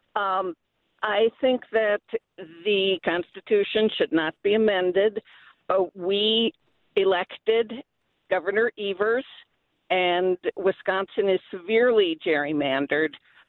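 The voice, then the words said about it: Hoarse, fading voice. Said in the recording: “I'm losing my voice here”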